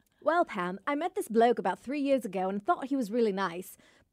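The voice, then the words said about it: Put-on English accent. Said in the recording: “And mind you, again, England. ... I'm not going to do the accent. ... Do it. I was about to ask. Will you do it in your accent?”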